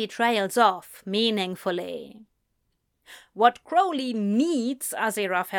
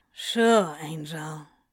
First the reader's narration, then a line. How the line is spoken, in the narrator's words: Crowley sighs